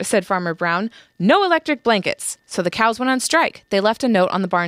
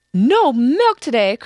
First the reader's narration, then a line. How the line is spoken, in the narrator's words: cried Farmer Brown